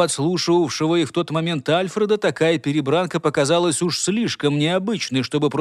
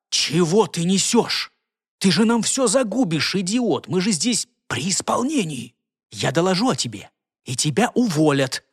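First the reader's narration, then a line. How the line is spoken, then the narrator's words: Hissed under breath. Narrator (Russian): вполголоса прошипел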